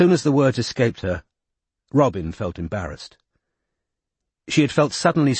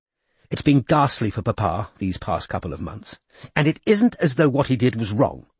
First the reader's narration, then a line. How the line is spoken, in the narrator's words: said fiercely